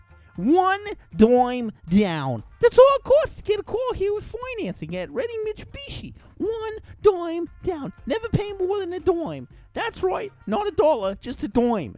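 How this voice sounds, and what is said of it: Woman's Brooklyn accent imitation. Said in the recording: “this chick with like a Brooklyn accent.”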